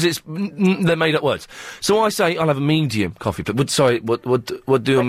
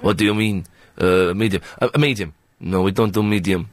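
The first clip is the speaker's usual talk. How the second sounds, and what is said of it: Put-on Iraqi accent. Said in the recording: “This is my Iraqi accent”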